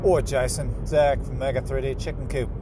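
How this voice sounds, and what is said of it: Poorly done put-on accent. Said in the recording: “that was my poor whatever accent.”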